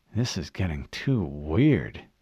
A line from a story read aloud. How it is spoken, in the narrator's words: Fred muttered